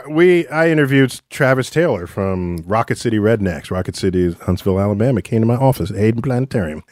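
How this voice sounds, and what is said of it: Affected put-on accent. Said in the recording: “you affect the accent”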